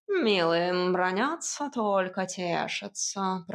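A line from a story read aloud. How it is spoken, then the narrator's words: Grumbling. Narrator (Russian): проворчал кот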